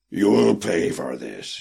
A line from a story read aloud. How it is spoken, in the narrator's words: he snarled through clenched lips